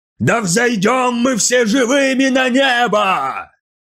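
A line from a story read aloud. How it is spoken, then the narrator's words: Preacher yelling. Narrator (Russian): завопил проповедник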